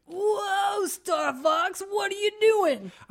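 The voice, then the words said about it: Put-on cartoon character voice. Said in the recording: “I'm glad you're doing the voices”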